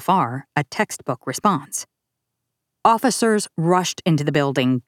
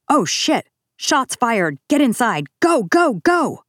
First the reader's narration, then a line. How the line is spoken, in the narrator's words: One officer's body camera showed him running across campus and shouting